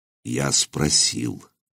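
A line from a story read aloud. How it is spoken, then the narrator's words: Very quiet. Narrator (Russian): совсем тихо проговорил Нурман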